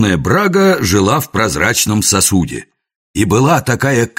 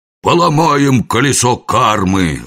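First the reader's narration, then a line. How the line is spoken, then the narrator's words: Growling. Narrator (Russian): рычал он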